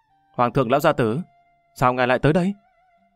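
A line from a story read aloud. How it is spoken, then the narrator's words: Smiling greeting. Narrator (Vietnamese): Lâm Văn Vinh mỉm cười chào đón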